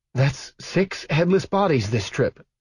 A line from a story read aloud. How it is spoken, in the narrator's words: she said, hating that her voice shook